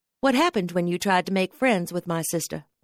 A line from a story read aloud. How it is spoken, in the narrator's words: I added quickly